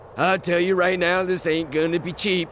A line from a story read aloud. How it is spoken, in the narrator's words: the man grunted